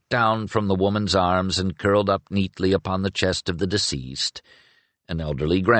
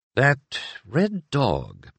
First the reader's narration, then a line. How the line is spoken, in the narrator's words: muttered out of the corner of his mouth